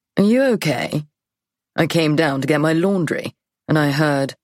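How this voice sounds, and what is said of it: Plummy posh British accent. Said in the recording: “You're British ... As British as the Queen, in fact. A proper, plummy, posh boy accent.”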